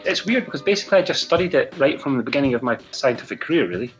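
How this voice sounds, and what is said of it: Scottish accent. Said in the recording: “Oh, I love that sexy Scottish brogue.”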